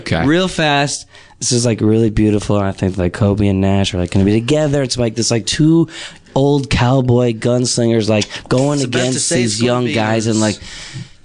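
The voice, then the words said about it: Low voice, worn-out throat. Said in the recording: “did you wear out your throat? ... Yeah, no, I did. I was afraid that this wouldn't sound very good, so I'm talking in a low voice.”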